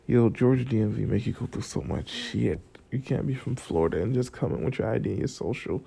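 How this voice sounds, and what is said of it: Groggy morning voice. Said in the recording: “My voice has gotten gradually worse because sometimes in the morning I have this morning groggy voice. ... It's all groggy.”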